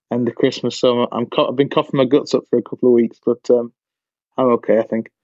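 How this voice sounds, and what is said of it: Slightly croaky voice. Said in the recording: “my voice is a little bit croaky because I've just got off the back of a bad cold”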